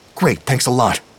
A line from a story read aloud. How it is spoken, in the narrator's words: Demont snapped